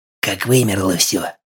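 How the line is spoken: Whispered reply. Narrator (Russian): шепотом ответил он

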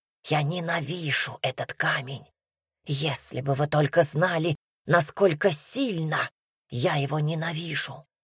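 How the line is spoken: Whispered. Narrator (Russian): прошептал он

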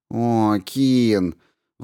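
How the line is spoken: Sighing. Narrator (Russian): вздохнула Дип

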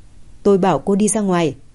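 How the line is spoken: Cold. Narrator (Vietnamese): Hạ Diệp Chi lạnh lùng nói

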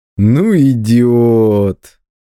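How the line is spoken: Drawling. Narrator (Russian): протянул он

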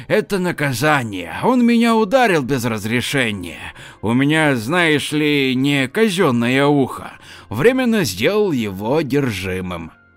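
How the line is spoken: Grumbling. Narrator (Russian): проворчал Валера

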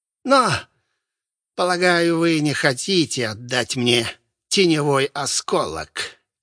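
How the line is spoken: Booming laugh. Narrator (Russian): он гулко хохотнул

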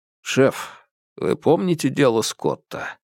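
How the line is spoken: Quiet. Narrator (Russian): Гао Далунь тихо произнес

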